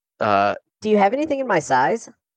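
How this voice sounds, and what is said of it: Girlish character voice. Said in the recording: “girl voice”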